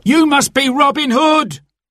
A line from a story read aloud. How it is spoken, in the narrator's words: cried the terrified man on the cart